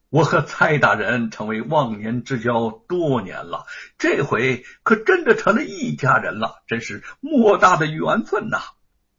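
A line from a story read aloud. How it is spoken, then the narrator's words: Glad, laughing. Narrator (Chinese): 吴承恩心中也替他高兴，笑着说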